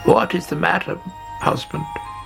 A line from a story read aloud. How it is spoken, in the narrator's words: croaked